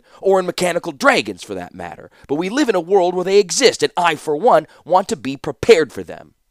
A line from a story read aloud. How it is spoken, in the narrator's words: snapped Felden